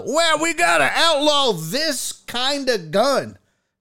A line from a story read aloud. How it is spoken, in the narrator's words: morons on the left want to start yelling